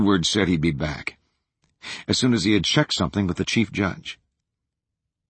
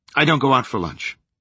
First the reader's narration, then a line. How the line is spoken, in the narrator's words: the man said curtly